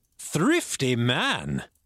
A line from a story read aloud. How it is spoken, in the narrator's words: cried the doctor